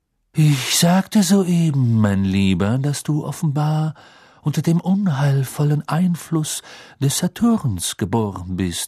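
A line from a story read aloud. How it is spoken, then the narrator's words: Slightly reluctant, irritated voice. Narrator (German): sagte mit einem Hauch von Widerwillen in der Stimme, weil offensichtlich nicht an ihren Lippen gehangen hatte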